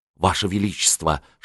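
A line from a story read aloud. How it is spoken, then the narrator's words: Whisper. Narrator (Russian): шепнул канцлер Августу Третьему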